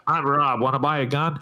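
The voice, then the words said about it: Nasal impression of another speaker. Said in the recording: “let me try and impersonate you... Hang on, nose plug.”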